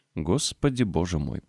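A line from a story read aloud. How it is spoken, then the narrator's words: Mutter. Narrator (Russian): пробормотал он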